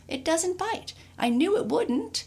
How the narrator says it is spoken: cried

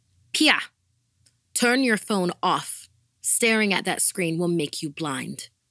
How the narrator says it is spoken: my mom would come in and shout

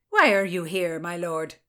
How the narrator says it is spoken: Lady Clinton barked

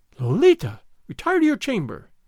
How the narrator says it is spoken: Dona Catalina exclaimed

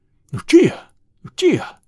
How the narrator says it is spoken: I cried

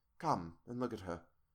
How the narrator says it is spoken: I said softly to him

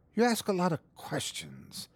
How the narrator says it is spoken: growled the gatekeeper, his torment rising

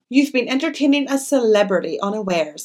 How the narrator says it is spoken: I replied

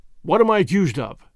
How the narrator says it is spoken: asked McMurdo

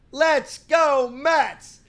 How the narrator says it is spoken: he just politely screams as loud as he can

